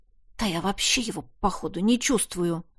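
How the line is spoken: Muttered to himself. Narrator (Russian): буркнул про себя я

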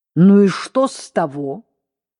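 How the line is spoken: Harsh unpleasant voice. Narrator (Russian): сказала резким неприятным голосом

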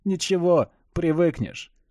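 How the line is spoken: Chuckling. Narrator (Russian): хохотнул Дженсен

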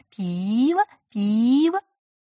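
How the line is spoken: Coquettish, affectionate question. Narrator (Russian): с другой стороны кто-то кокетливо и ласково переспросил

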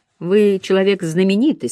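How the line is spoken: Plain. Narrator (Russian): сказал Дермот

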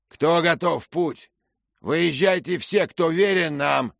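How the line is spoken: Shouted. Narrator (Russian): крикнул Беннет

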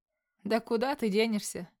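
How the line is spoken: Laughing. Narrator (Russian): начинает хохотать

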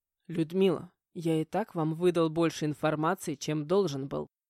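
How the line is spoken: Man's grumbled warning. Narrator (Russian): проворчал мужчина, предупредил

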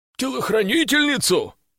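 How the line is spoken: Snort. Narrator (Russian): хмыкнул боец с позывным

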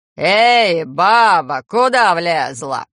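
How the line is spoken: Growling. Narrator (Russian): рыкнул он

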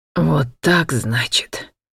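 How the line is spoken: Furious hiss. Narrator (Russian): яростно прошипел Натан

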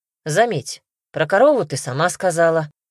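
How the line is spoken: Amused snort. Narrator (Russian): хмыкнул он

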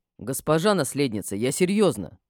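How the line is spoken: Suddenly stern. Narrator (Russian): внезапно строго высказался он

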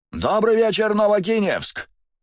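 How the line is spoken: Shouted into microphone. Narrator (Russian): выкрикнул за моей спиной в микрофон Конрад

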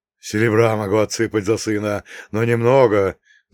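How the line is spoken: Sighing. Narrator (Russian): вздохнул Игоша

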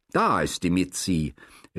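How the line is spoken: Enticing call. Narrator (German): rief nun geradezu lockend der Laurer Jungwirth

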